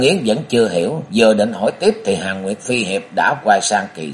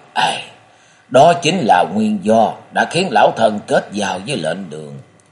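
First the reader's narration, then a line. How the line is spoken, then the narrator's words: Sighing. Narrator (Vietnamese): Hàn Nguyệt phi hiệp buông tiếng thở dài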